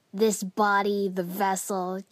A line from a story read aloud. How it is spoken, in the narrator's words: Kiba spat